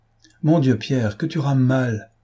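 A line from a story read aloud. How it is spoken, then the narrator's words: Impatient exclamation. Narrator (French): s'écria Dosia, impatientée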